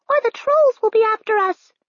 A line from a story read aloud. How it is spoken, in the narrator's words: said a high squeaking voice